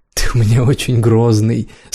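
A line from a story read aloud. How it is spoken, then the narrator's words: Laughing with relief. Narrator (Russian): смеясь от облегчения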